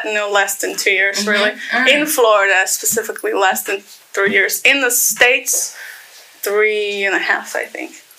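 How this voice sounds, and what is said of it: Accent with a slight twang. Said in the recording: “Like, it's a little twang to it.”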